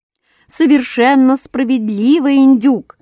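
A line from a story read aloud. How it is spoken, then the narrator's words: Loud crowd shout. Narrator (Russian): крикнули все разом так громко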